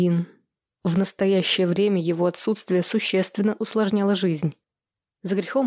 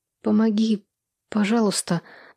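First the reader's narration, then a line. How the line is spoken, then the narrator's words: Trembling plea. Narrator (Russian): дрожащим голосом попросила я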